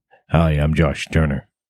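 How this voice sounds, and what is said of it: Imitates a very deep male voice. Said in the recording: “He's got a very deep voice”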